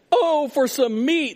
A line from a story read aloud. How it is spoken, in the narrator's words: they exclaimed